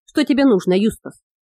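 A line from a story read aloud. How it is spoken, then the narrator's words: Grumbled. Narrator (Russian): проворчал мистер Мизон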